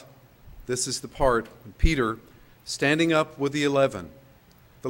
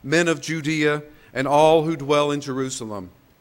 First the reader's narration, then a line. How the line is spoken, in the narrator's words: must have been a booming message